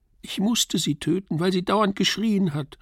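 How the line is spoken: Wailing cry. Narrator (German): rief mit jammernder Stimme

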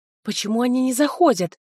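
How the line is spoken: Whisper. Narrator (Russian): прошептала я

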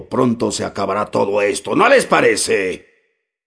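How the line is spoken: Exclaimed with a curse. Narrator (Spanish): exclamó, con un reniego

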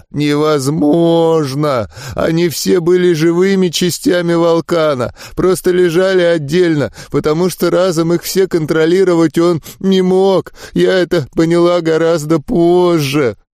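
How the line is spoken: Choked out through sobs. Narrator (Russian): Захлебываясь рыданиями, выдавила

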